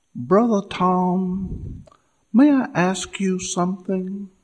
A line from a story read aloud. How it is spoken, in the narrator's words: she said in her soft southern voice